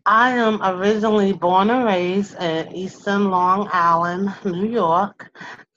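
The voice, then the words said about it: New York accent. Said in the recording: “I hear an accent... I have that New York-esque accent”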